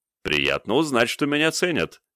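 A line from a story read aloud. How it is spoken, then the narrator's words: Short chuckle. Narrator (Russian): хохотнул я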